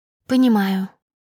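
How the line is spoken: Sad smiling. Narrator (Russian): Я грустно улыбнулась

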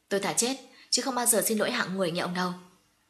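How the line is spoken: Cold sneering. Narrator (Vietnamese): nàng cười nhạt

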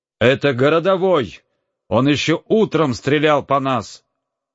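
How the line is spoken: Crowd shouting. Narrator (Russian): кричали в толпе

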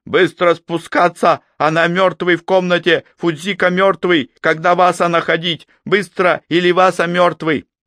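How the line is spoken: Breathless shout over roaring fire. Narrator (Russian): Хватая ртом воздух, Хирага прокричал, перекрывая рев пламени

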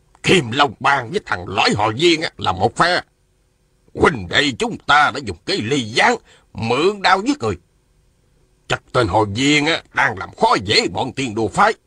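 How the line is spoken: Hoarse voice. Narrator (Vietnamese): Một giọng khàn khàn nói

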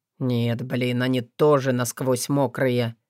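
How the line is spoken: Quiet. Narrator (Russian): сказал тихо

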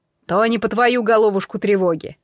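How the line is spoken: Amused snort. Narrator (Russian): хмыкнул Кощей

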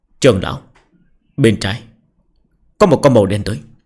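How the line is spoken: Low voice. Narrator (Vietnamese): Tần Quan nhỏ giọng nói

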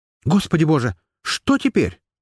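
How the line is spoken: Exclaiming. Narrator (Russian): воскликнула

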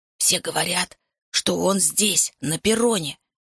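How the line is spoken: Whispering into ear. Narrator (Russian): шепнул президент мне на ухо

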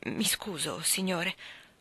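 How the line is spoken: Mumbling, suddenly calmer. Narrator (Italian): farfugliò lei, improvvisamente più calma

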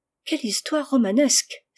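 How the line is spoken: Exclaimed. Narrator (French): s'écria Rose

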